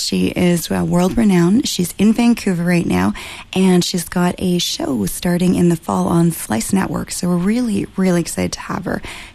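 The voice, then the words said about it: Soothing radio voice, slight rasp. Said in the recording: “you have the best radio voice ever ... You're sending me to sleep in a good way ... it's my bedroom voice, but it's got a little bit of the rasp”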